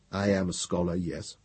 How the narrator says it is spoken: Gendebal said quietly and with careful lack of emotion

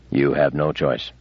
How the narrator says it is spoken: said Bailey flatly

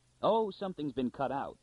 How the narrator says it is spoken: cried Anthor impatiently

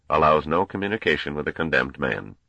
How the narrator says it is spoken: said the Grand Master coldly

